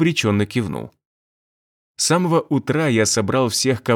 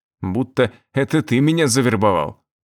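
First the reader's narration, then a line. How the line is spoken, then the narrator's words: Snorting. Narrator (Russian): Турок хмыкнул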